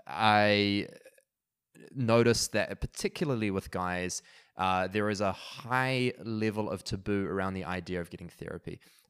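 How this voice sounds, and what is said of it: New Zealand accent. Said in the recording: “New Zealand, where I'm from, hence the accent”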